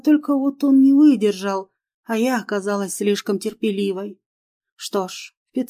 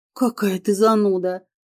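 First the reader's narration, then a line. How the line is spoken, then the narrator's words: Snort. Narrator (Russian): фыркнула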